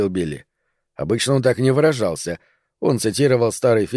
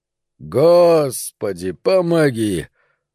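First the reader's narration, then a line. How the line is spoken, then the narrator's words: Tired drawl. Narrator (Russian): устало протянул Пономарь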